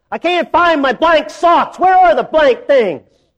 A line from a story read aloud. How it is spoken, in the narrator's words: he shouted down to his wife